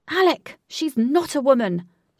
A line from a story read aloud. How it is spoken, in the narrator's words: shouted Wraith as he watched impatiently